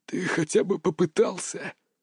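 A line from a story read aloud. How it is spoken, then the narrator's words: Hoarse reply. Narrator (Russian): прохрипел он в ответ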